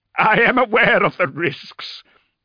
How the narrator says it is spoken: Leta laughed a little hysterically

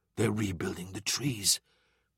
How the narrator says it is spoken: Bull whispered

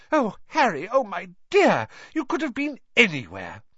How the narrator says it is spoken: Gasping for breath, she

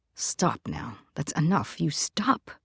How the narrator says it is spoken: low and fierce, almost growling it

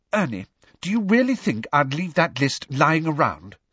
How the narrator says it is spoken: said Hermione testily

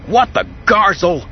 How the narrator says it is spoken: Han cried

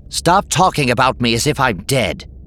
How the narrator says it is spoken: Sintis snapped

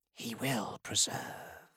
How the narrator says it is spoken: Ionis breathed

